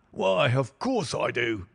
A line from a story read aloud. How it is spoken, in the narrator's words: he wheezed